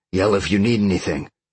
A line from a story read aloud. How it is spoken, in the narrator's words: Sean growled